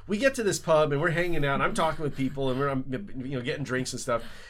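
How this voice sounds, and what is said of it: North American English accent. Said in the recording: “I am American. I have an accent, Canadian/American accent. I don't hide it at all.”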